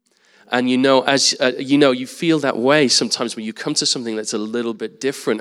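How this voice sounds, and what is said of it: English accent. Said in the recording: “me being here with an English accent, slightly strange looking English guy”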